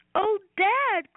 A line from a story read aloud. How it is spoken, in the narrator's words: cried Robbie